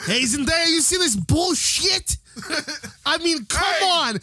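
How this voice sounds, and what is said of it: Put-on New York accent. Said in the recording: “he's got the actual New York accent”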